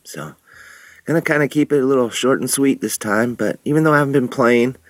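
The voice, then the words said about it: Sick, under-the-weather voice. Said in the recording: “If you can tell by my voice, I've been a little under the weather”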